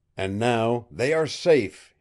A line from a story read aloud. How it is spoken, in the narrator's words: he cried exultantly